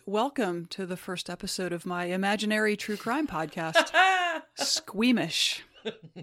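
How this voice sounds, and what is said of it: Put-on true crime podcast host voice. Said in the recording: “I'm going to quit with that voice now. That was my intro to my true crime podcast voice.”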